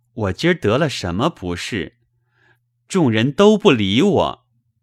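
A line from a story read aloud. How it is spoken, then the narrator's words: Dazed sigh. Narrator (Chinese): 宝玉恍恍惚惚的，叹道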